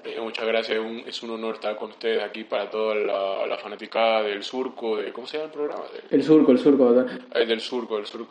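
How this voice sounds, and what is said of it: Poor imitation of another person's voice. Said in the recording (Spanish): “mi pésima imitación de Bad Bunny”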